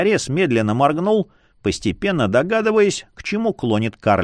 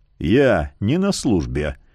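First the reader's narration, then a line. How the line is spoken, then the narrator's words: Quiet but firm. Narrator (Russian): тихо, но твердо проговорил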